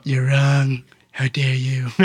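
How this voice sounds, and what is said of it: Imitates another person's voice. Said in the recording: “Great Trump accent. ... You do a good Trump.”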